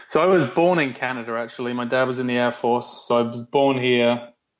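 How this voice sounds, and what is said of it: English accent. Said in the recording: “listeners listening right now can tell you're not probably a native Canadian ... went back to England, which is where the accent's from”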